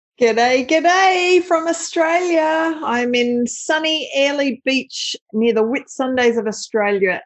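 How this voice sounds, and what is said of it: Australian accent. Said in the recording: “from Australia. She has a really cool accent”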